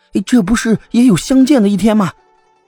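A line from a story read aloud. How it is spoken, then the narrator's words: Overjoyed loud shout. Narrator (Chinese): 王贵安喜出望外，大声叫道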